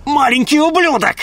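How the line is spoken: Woman barking. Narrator (Russian): рявкнула женщина

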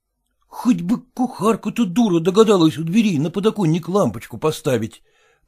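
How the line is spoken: Muttering. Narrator (Russian): продолжал бормотать Селезенкин

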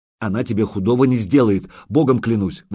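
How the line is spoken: Fervent exclamation. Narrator (Russian): воскликнул Илья

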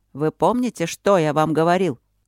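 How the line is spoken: Irritated question. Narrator (Russian): осведомился Трот раздраженно

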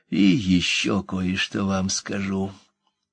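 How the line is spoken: Quiet. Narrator (Russian): тихо промолвила она

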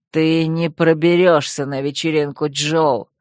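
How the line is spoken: Hiss. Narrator (Russian): прошипел он

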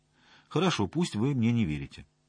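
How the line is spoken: Calm female reply. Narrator (Russian): спокойно ответила она

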